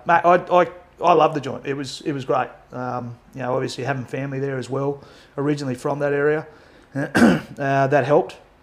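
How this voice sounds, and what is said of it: Australian accent. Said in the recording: “with an Aussie accent”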